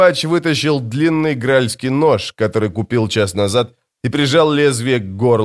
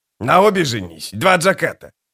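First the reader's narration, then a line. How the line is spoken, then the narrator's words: Snorting. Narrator (Russian): Сводник фыркнул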